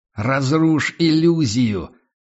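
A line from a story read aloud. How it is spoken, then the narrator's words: Growl in face. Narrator (Russian): прорычал ему в лицо Серхион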